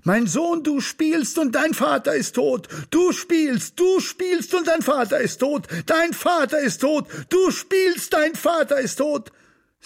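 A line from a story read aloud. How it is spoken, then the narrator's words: Screaming into the street. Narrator (German): Sie schrie es auf die Straße hinaus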